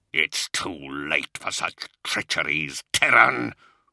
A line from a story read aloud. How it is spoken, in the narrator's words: Luther snarled